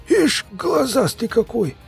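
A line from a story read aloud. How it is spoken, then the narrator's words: Hoarse remark. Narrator (Russian): заметил сиплый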